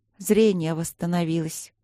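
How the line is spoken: Weary princess. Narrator (Russian): устало ответила принцесса

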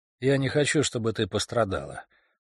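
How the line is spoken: Plain, after hesitation. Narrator (Russian): наконец сказал Райан

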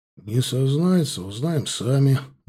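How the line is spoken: Grim, anticipating fun. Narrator (Russian): мрачно заявил сержант Мартынов, предвкушая веселье

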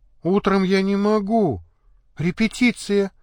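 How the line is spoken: Sad. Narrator (Russian): печально сказала Федька

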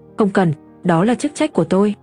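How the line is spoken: Cold, disdainful reply. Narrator (Vietnamese): Lục Á Minh hừ nhẹ một tiếng, ông nhìn thế nào cũng không vừa mắt con người Tần Duyệt này, vì thế chỉ lạnh lùng trả lời

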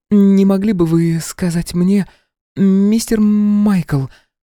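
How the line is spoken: Strained, almost stuttering. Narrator (Russian): Слова давались с трудом, она почти заикалась

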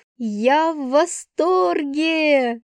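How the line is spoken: Delighted shout. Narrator (Russian): прокричала от удовольствия

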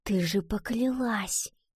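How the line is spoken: Whispered reminder. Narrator (Russian): напомнила она шепотом

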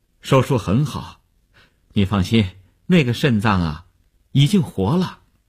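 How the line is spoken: Relieved, smiling reassurance. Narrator (Chinese): 医生见他终于发出了声音，放心地笑笑说

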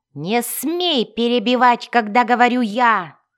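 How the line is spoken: Furious yell. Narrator (Russian): в бешенстве заорал он

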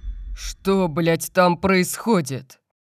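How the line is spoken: Roared. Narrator (Russian): Взревел

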